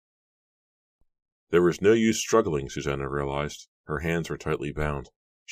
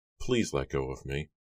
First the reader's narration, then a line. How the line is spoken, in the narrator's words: Giles replied softly, and then he added firmly